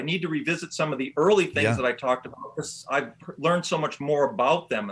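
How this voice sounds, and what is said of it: Relaxing Michigan Great Lakes accent. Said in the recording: “hasn't he got the most relaxing voice? ... where is that accent from? ... This is Michigan. ... Chicago, Detroit area, Lakes area.”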